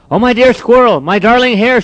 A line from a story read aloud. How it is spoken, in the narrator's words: cried, with tears running down her cheeks